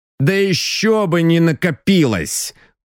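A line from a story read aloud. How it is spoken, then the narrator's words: Grumbling. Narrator (Russian): проворчал Саратовцев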